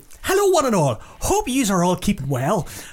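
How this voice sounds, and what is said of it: Put-on Irish accent. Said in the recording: “your favourite person to do an accent for, Orla Redmond from Wexford in Ireland”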